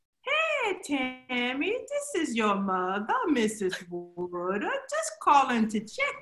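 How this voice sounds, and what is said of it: Texas accent imitating her mother. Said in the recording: “you don't have a Texas accent ... Can you bring it back”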